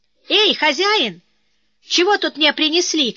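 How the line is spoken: Shouting. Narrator (Russian): кричал один

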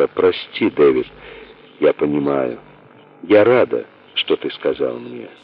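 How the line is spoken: Soft. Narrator (Russian): мягко сказала

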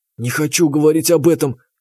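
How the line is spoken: Bristling hiss. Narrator (Russian): зашипела Лидка, разом ощетинившись

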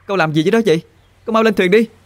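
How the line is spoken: Worried, shouted from afar. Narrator (Vietnamese): lo lắng, hét vọng tới

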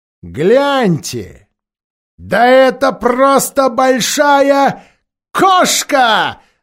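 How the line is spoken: Shouting. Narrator (Russian): закричал один

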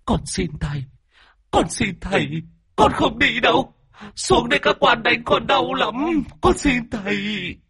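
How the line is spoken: Whimpering ghost. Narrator (Vietnamese): Vong mếu máo

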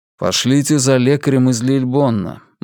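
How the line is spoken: Gloomy. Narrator (Russian): мрачно произнес Вивьен

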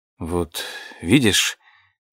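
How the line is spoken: Quiet. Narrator (Russian): тихо произнес я

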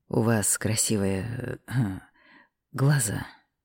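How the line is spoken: Hoarse. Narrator (Russian): хрипло произнес

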